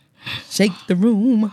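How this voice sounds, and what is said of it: Gospel preacher-style voice. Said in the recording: “in my gospel voice”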